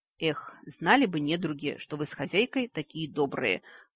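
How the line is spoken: Mournful sigh. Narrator (Russian): скорбно вздохнула

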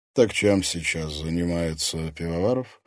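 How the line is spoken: Muffled, hollow question. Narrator (Russian): глухо осведомился Закревский

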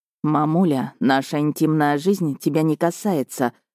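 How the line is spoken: Through gritted teeth. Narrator (Russian): сквозь зубы ответил Миха

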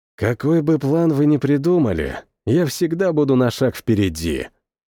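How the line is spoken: Quiet, mage. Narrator (Russian): тихонько произнес маг

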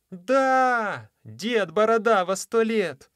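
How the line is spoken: Many voices shouting together. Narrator (Russian): закричали одновременно около 12 голосов

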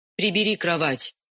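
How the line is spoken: Stern command. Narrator (Russian): строго велела она

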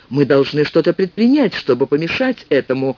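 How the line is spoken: Exclaiming. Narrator (Russian): воскликнул Джонатан

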